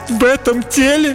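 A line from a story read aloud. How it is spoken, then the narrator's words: Sobbing. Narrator (Russian): Принцесса всхлипнула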